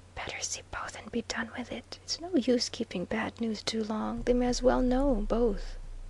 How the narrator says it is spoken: he whispered to Viner

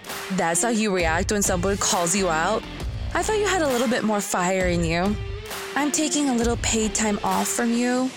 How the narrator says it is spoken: I laughed in her face and said

